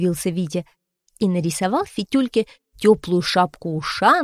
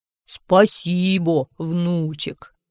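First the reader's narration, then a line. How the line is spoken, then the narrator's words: Deep bass voice. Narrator (Russian): сказал Фитюлька басом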